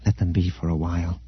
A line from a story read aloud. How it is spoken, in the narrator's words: Leia said softly